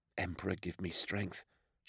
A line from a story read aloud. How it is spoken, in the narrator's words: whispered, quietly enough so that the vox monitors in the room did not hear her